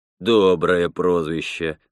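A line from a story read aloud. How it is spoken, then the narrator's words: Mocking. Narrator (Russian): насмешливо сказал Роман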